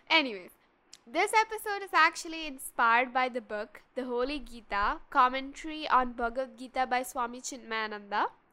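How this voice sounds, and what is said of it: Slightly altered, congested voice. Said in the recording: “I have a little uh, cold, so my voice might be a little different”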